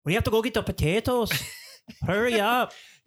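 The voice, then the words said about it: Put-on Irish accent. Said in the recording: “I have just now a better Irish accent than Tom Cruise did in that movie.”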